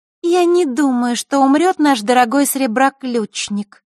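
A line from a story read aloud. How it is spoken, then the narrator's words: Thin high voice. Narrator (Russian): тонким голосом произнесла Маришка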